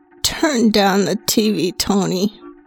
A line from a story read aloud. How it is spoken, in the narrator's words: one of them finally mumbled